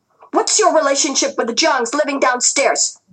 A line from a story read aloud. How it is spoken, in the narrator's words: the girl yelled